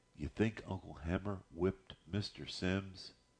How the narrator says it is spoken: whispered

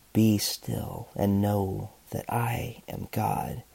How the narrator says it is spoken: whisper

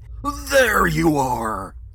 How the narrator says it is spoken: he shouted

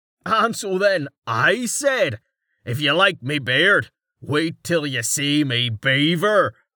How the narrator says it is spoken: Carten shouted

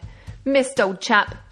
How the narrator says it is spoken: shouted Predoux

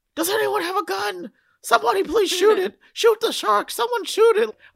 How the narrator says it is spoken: There's a guy screaming

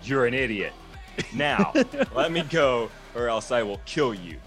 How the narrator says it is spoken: The headless man laughed again and said

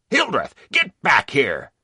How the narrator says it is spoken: Sergeant Howard shouted

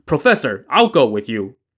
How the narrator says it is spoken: he shouted

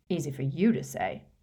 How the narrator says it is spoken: muttered Harry

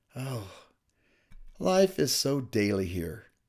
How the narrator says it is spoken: replied with a sigh

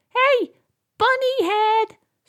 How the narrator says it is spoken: shouted the box

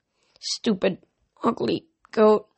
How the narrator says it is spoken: he muttered

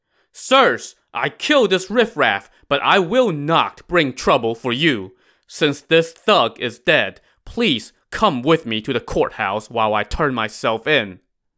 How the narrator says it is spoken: Yang Zhi shouted

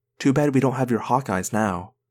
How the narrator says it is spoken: I whispered to Tobias

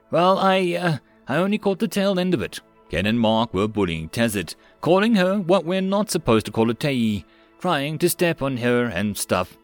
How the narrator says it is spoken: said Henry

